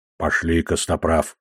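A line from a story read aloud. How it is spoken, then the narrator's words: Whisper. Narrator (Russian): прошептал Одноглазый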